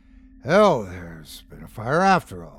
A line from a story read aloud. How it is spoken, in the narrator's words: muttered Jonas, with an uneasy start